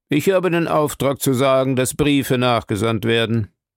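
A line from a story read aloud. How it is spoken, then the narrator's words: Cold reply. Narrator (German): erwiderte er kalt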